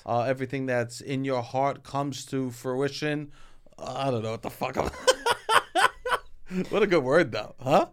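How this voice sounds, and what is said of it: Strong regional accent, drawn-out aw vowels. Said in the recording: “because I have my accent, they'll just start like spelling words out like I say it ... C-A-W-F-E ... I'm getting the A-W's all the time ... T-A-W-K, talk”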